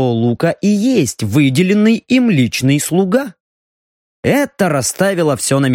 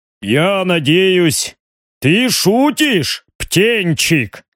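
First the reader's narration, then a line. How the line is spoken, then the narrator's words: Deep bass voice. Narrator (Russian): пробасил барон Риган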